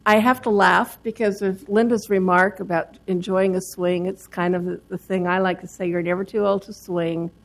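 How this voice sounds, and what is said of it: Slightly raspy, froggy voice. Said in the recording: “I've got frogs that are trying to interfere with it today”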